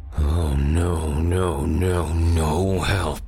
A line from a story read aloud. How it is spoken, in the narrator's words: Frost grunted